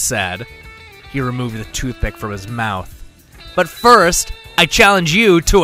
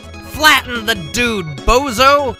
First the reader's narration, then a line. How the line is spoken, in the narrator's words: Somebody called out